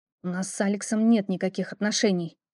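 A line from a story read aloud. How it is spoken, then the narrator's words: Through gritted teeth. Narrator (Russian): процедила я, стиснув зубы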